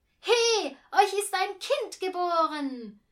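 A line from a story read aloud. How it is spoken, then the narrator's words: Joyful, triumphant shout. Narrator (German): schrie, und es klang wirklich wie die beste Botschaft der Welt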